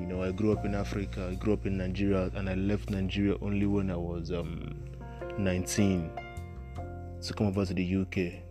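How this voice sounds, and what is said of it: Nigerian accent. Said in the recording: “My accent as well is still Nigerian. My accent has not changed yet to that of the British.”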